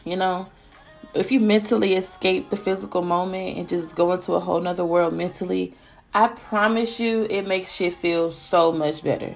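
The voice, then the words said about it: Stuffy, congested nasal voice. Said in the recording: “I sound stuffy. ... my nose just was like, you know how I be swollen on the inside? ... It's just enclosed”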